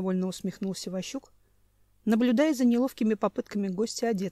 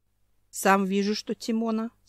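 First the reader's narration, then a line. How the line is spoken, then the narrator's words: Grumpy mutter. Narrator (Russian): сварливо пробурчал Семен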